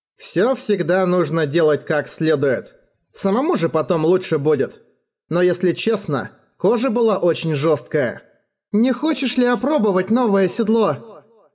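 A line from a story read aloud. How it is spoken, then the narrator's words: Plain question. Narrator (Russian): Спросила Эрагона Сапфира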